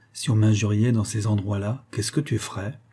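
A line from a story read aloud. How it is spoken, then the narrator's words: Swaggering tone. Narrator (French): répondait d'un ton crâne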